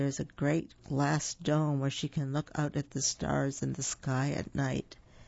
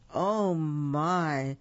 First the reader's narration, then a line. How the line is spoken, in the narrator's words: sighed the two mice in dismay